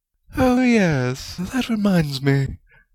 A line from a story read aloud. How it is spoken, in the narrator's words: Rowena purred